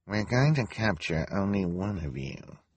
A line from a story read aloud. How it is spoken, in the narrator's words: she said, in a quiet voice so the audience wouldn't hear her